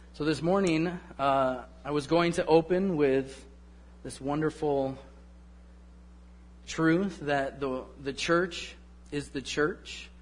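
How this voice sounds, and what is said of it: Slightly hoarse, froggy voice. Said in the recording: “I have a little frog in my throat.”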